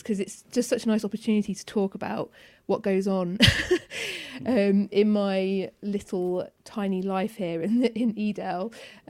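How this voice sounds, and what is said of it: Excited, animated voice. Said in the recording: “You can probably hear the excitement in my voice,”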